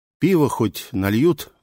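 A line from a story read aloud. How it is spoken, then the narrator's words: Sighed. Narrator (Russian): вздохнул я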